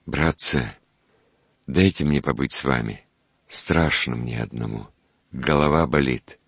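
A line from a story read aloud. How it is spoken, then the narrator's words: Plain. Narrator (Russian): сказал Артифексов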